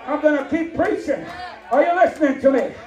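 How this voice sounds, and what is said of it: Yelling preacher delivery. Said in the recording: “he yelled at us from the word ... I'm going to keep yelling.”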